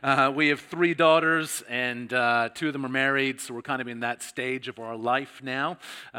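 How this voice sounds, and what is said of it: Canadian accent. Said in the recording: “my accent that I'm not just from New South Wales. I was originally from Canada”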